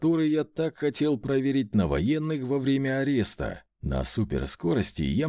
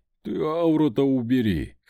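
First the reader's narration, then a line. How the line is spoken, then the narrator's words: Chuckled. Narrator (Russian): хохотнул Вольт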